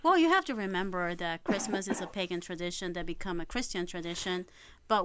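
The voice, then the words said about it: Speaks with a noticeable accent. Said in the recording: “I have my accent.”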